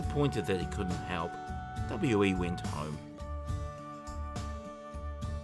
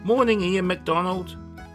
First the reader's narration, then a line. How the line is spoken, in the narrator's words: he called out